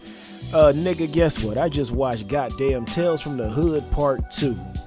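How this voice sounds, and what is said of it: Hoarse voice recovering from loss. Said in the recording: “I apologize for my voice. It might sound a little bit different. It's just now coming back ... I was shouting and yelling, hooting and hollering ... I lost my voice, and it's slowly coming back”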